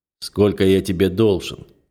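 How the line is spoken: Rude, needling question. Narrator (Russian): грубо спрашивает он

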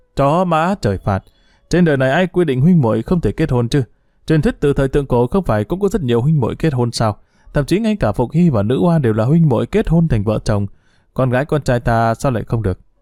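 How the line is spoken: After wild laughter. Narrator (Vietnamese): Từ Đắc Tổ cười to điên cuồng, sau một lát mới ngừng lại nói

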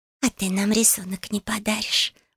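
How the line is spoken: Sudden pleading whisper. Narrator (Russian): вдруг умоляюще прошептала Дая

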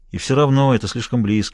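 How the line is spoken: Sighed. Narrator (Russian): вздохнул Смайлоу

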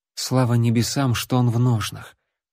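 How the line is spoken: Quiet whisper. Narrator (Russian): тихо прошептала Лайла

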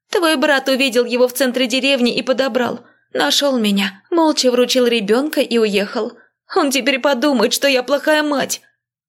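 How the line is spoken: Sudden sob. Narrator (Russian): вдруг всхлипнула

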